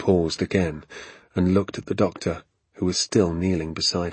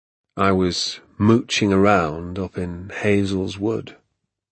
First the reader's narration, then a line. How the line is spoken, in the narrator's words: he said slowly